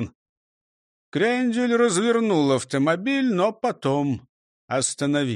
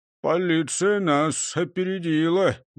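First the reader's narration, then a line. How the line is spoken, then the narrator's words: Gloomy report. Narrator (Russian): доложил мрачно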